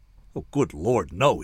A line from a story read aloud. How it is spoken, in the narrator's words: he said